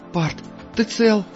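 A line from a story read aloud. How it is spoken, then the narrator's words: Unusually frightened question. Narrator (Russian): спросила Инси как-то непривычно испуганно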